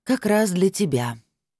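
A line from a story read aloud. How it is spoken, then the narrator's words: Sighing. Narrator (Russian): вздохнула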